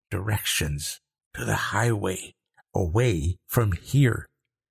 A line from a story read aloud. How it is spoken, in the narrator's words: Liam whispered